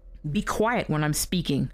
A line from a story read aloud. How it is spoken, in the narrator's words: she snapped